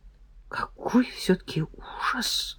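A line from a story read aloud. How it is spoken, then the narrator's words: Muttered. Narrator (Russian): пробормотала Юлечка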